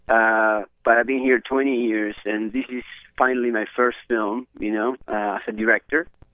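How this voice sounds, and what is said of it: Uruguayan Spanish accent. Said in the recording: “I am from Uruguay originally. That's why my accent.”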